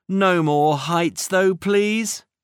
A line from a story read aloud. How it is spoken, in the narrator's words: groaned Cat